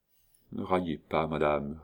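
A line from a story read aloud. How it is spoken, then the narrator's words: Murmuring. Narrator (French): murmura Léon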